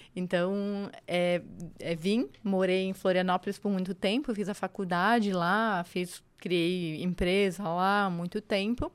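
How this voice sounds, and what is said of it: Brazilian Florianópolis accent. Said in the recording (Portuguese): “o sotaque é de lá. O sotaque é de lá. Mas eu brinco, né? Eu não tenho sotaque, as pessoas já riem.”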